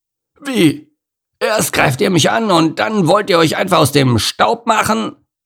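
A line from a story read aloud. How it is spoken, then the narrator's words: Roaring. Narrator (German): brüllte Norman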